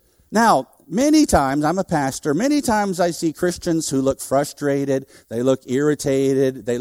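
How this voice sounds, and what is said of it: Usual voice. Nothing is said of it.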